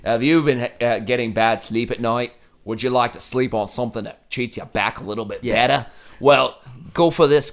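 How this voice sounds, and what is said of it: Put-on Australian accent. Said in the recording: “the guy explains all the murders in Australian accent”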